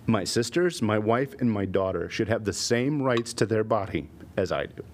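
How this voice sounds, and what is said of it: Emotional, voice breaking up. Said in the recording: “this got emotional. ... Very emotional”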